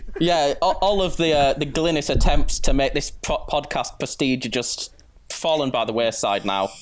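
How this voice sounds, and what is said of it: Classy-sounding accent. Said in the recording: “he's got a better accent than anyone you know, probably ... Don't let this accent deceive you ... You're really classing up the joint”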